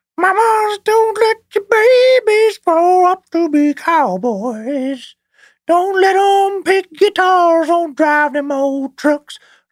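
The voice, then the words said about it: Singing in a high voice. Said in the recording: “Is the only high voice I have”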